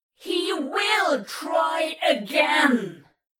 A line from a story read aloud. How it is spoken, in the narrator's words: The cherub thunders like an organ chord descending from major to minor, except in a way that aches in the back of your jaw